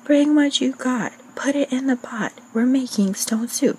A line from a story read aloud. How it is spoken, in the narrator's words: The travelers were delighted and exclaimed